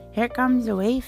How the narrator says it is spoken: Sybil said nervously

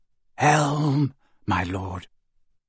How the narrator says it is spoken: whispered Malfoy

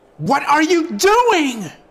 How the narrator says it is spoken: An angry voice bellowed from behind

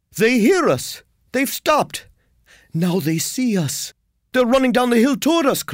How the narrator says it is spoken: cried Ulrich

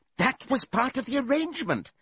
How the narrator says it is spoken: cried Squealer

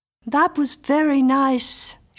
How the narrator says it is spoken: sighed

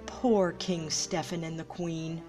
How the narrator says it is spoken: said Fauna

